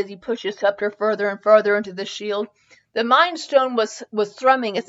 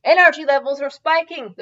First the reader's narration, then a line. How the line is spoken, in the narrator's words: the muggle yelled